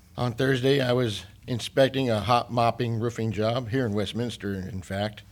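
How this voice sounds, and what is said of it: Slightly off, strained voice. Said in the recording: “You may perceive my voice is a little off... I kept breathing in those melting asphalt smoke and fumes. So I kind of feel it.”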